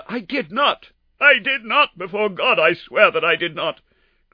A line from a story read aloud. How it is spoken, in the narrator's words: cried our wretched prisoner